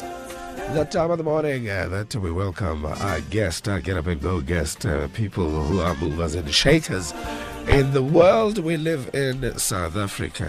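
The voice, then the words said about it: Rough, gravelly sick voice. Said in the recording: “pardon the voice... I'll sound better because now I sound like a tractor... the flu”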